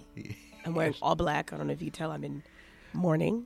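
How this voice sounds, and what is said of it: Hoarse, strained voice. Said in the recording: “My voice has left me.”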